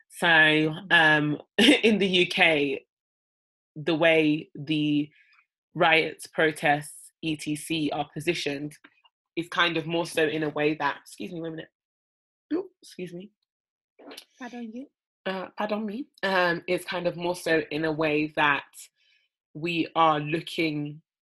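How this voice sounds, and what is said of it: British accent. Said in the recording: “as you might hear from our accents, we're from the UK”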